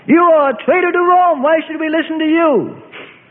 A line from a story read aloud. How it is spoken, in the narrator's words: a bold man shouts